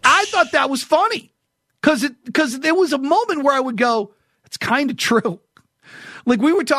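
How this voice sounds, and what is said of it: Usual voice. Nothing is said of it.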